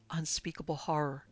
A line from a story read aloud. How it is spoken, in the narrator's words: had whispered